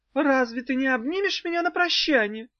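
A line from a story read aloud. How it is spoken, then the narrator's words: Sad question. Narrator (Russian): грустно спросила она у Иссёрха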